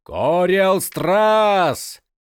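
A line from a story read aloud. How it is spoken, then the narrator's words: Shouting. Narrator (Russian): закричал Крас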